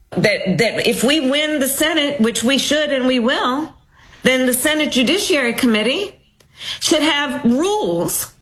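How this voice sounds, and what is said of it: Southern American accent. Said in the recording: “What's with her southern accent ... It's very weird. Is she trying to imitate somebody?”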